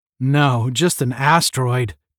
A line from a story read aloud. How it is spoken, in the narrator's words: Tom grumbled